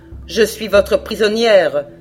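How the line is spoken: Cold. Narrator (French): dit-elle froidement

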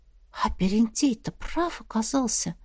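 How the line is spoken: Puzzled whisper. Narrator (Russian): прошептала Настя озадаченно

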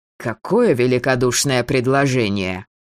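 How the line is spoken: Angry, sneering. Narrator (Russian): Маркус зло скривился

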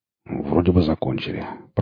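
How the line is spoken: Mutter. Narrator (Russian): пробормотал Бурланд

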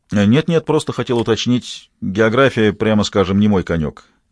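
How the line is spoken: Plain. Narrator (Russian): ответил Тони

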